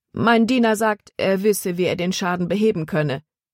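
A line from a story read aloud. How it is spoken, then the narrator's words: Plain. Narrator (German): sagte Caleb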